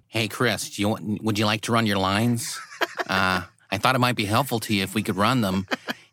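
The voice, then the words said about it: Randall Park impression. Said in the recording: “your great Randall Park impression ... That was amazing.”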